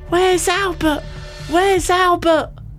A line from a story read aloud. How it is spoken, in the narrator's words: Nan screaming at me